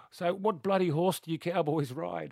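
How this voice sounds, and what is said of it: Broad Australian accent. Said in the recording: “in true Aussie accent.”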